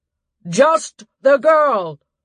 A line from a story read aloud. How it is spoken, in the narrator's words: shouted from the slope